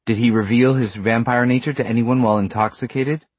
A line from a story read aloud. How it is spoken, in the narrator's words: Robert asked sharply